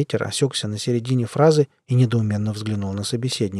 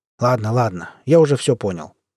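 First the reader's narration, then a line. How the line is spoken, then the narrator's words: Irritated retort. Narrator (Russian): Он раздраженно бросил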